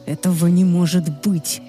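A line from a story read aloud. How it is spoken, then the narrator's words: Furious growl. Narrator (Russian): яростно прорычал Люциан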